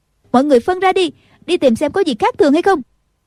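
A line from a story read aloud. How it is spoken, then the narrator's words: Shouted. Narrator (Vietnamese): Nghi Thành la lên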